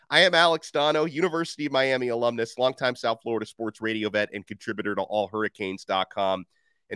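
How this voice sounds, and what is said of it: Congested, strained voice. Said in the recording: “I'm fighting through the most persistent cold ever. So if I lose my voice completely halfway through this episode, you have been warned.”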